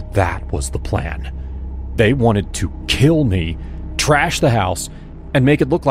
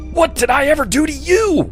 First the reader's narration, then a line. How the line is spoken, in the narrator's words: I screamed